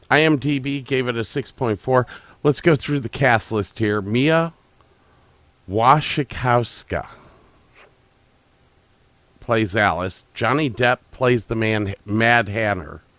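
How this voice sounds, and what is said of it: Voice sounds off, congested. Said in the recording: “these allergies, you could tell by my voice that I don't sound right”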